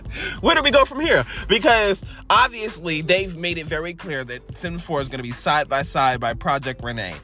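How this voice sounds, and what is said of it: Angry, pissed-off voice. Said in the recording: “I'm so pissed. I can't tell y'all how pissed I am. I'm sure you can tell by my voice.”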